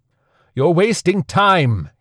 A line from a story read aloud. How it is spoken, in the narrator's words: he yelled